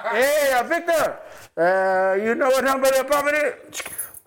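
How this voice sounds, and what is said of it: Put-on Mexican accent. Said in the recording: “Every time I'm talking to them, I got a Mexican accent”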